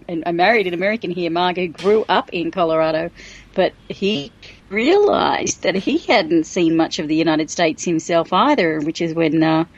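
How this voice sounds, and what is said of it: Australian accent. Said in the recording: “as you probably can tell from the accent, Johnny, I'm Australian”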